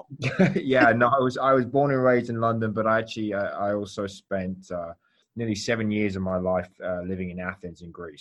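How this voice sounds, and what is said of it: London accent. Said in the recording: “I was going to ask you if you were from London ... I'm never tired of hearing London accents. They're just beautiful.”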